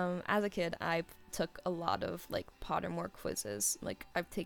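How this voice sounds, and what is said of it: Usual voice. Nothing is said of it.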